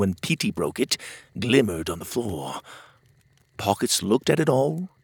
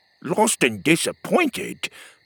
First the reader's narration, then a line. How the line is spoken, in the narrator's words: Petey snorted